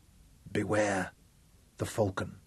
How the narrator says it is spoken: she whispered

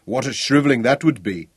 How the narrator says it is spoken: Ralph chuckled

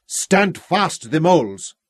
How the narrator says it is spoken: roared

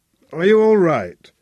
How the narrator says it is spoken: Anxiously

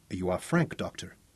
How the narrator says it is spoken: Louise whispered

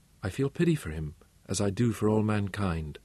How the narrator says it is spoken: she answered quietly

